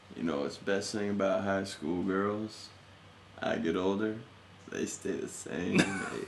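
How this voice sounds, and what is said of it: Matthew McConaughey impression. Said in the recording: “from Dazed and Confused ... my impression ... I don't think I can do Matthew McConaughey”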